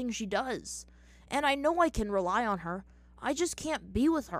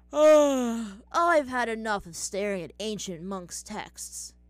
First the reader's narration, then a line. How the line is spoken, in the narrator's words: Sokka said, yawning